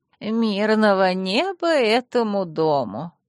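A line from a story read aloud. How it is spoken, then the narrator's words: Saccharine sweet little voice. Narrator (Russian): приторно-сладеньким голоском произнесла Манефа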